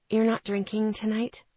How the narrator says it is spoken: I whispered

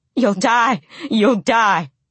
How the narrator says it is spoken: I screamed inside

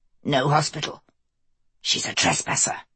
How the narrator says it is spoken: Jonathan hissed

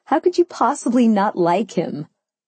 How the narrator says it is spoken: I laughed

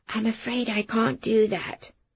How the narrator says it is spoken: I lowered my voice

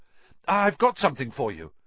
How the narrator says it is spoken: he gasped

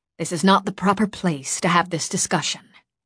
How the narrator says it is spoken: Alora said icily

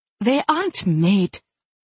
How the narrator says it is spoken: she said fiercely

